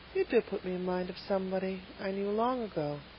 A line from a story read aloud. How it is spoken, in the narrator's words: said Miss Lavender, dreamily